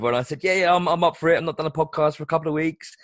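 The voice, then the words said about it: Hoarse voice with a cold. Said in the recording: “he's given it to me... I lost my voice... In between coughs”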